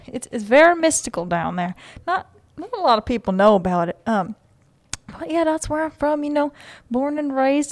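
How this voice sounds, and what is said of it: Speaks with a slight accent. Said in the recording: “you do have a little slight accent.”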